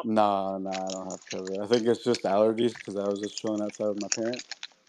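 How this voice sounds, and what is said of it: Rough, strained throaty voice. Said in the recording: “You sound like you've been smoking weed... My throat's been kind of feeling weird... Sorry about my throat and my voice.”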